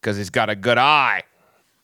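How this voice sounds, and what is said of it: Terrible put-on Australian accent. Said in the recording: “I do a terrible Australian accent.”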